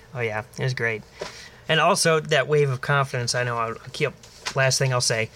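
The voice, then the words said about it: Raspy, strained throat. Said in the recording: “It sounds like you're dying ... my throat, very raspy. It could have been from the cigar I had last week”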